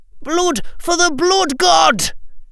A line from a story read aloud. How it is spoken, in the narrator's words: screamed Neville